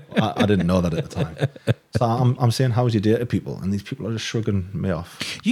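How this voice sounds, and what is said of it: Geordie accent. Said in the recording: “you've got a Geordie accent”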